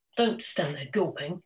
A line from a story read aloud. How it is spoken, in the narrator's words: his grandfather hisses